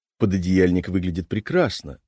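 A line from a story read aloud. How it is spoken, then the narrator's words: Mumbling. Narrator (Russian): забормотал Боря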